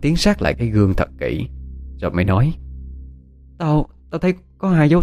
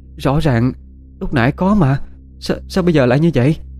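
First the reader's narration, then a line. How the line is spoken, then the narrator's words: Shocked stammering. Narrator (Vietnamese): Oanh đứng ngay người ra đó, mặt tái mét thấy rõ, miệng lắp bắp nói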